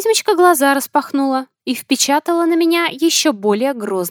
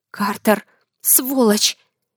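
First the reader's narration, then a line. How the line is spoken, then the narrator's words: Quiet hiss. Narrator (Russian): Тихо шипела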